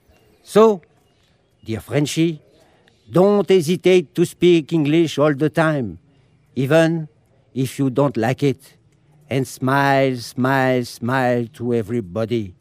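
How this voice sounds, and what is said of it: French accent speaking English. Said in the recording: “our horrible accent is charming. Our horrible accent is overwhelming. Our horrible accent is amazing”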